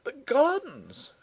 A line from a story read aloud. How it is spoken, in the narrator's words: she cried